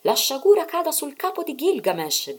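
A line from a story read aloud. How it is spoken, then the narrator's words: Shouted. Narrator (Italian): gridò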